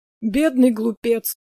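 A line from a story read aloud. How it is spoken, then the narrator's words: Sad remark. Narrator (Russian): грустно заметил Прометей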